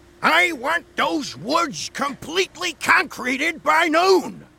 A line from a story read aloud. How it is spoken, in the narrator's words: he barked